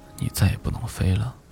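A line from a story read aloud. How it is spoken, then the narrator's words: Sighing. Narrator (Chinese): 大熊叹息地告诉燕子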